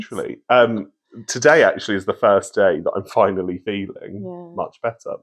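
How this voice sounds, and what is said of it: Slightly croaky voice. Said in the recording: “My voice is a little bit croaky. ... because I was singing in the car”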